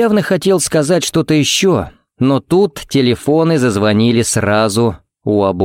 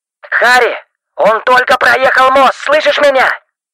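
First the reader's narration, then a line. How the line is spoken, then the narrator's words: Shouting into phone. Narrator (Russian): буквально кричал в трубку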